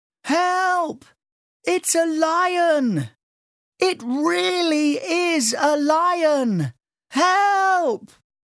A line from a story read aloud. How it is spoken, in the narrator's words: shouted as loud as he could